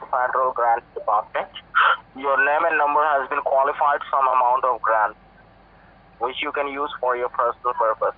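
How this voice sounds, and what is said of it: Thick Indian accent. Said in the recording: “You have a very thick Indian accent.”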